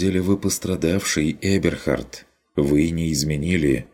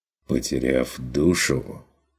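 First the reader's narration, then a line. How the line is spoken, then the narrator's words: Quiet. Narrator (Russian): тихо докончил фон Вегерхов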